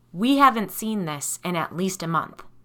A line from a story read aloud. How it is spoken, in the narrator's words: Ed said firmly